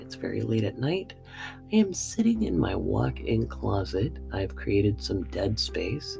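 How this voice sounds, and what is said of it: Whispering. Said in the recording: “I am literally whispering. That's how powerful this mic is. I am literally whispering.”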